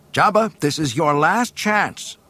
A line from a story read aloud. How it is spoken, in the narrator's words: shouted Luke